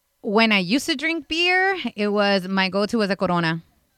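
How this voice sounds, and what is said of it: Put-on Latina accent. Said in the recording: “I like how you said it with a very Latina accent.”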